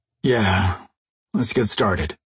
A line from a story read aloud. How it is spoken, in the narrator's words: Jason sighed